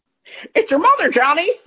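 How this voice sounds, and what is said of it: Parrot voice, done perfectly. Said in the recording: “I hope you guys know how perfect that accent is. He's absolutely nailing the parrot voice.”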